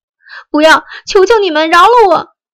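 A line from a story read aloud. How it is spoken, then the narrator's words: Piercing, pleading scream. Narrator (Chinese): 姑娘的哀求的惨叫像刀子似的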